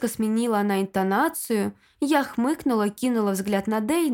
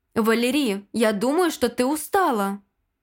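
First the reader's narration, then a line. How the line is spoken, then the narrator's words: Plain. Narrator (Russian): сказал он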